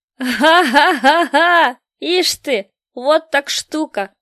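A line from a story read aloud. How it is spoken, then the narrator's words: Booming laughter. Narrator (Russian): захохотал раскатисто Мартын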